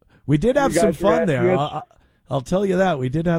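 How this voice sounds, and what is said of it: Usual voice. Nothing is said of it.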